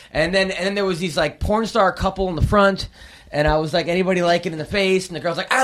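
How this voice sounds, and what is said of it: Usual voice. Nothing is said of it.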